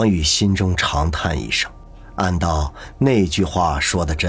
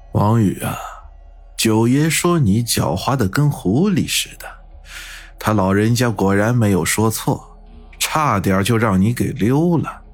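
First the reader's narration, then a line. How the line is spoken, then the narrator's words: Calm, indifferent middle-aged man. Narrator (Chinese): 身后传来那个中年人淡淡的说道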